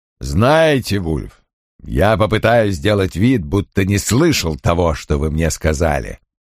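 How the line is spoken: Barely restrained growl. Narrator (Russian): прорычал Крэмер, сдерживаясь из последних сил

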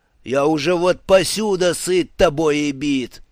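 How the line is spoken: Roared. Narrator (Russian): взревел он

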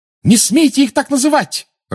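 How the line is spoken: Furious shout. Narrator (Russian): разъяренно крикнула Гермиона

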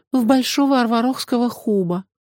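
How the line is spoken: Sighing. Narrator (Russian): вздохнула Меломори

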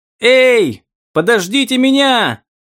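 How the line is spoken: Beggar shouting. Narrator (Russian): закричал попрошайка

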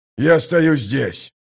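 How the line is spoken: Growled. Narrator (Russian): прорычал командир

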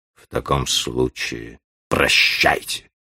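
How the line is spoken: Through gritted teeth. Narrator (Russian): прибавил сквозь зубы

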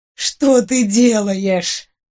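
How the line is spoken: Moaning. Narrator (Russian): простонал Гарольд

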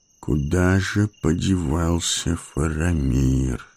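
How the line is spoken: Muttering. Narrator (Russian): бормотал Гэндальф

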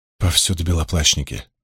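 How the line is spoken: Sighing. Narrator (Russian): вздохнула Найниф

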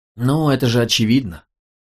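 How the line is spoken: Sighing, matter-of-fact. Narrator (Russian): вздохнул Мук, будто оно и в самом деле было очевидно

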